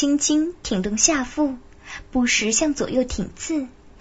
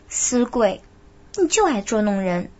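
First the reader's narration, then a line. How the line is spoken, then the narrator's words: Coy, playful scolding. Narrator (Chinese): 他娇嗔道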